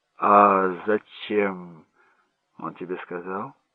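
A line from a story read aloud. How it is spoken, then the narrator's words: Calm question. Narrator (Russian): спросил Джек спокойно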